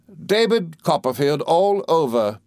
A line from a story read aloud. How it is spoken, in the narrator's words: cried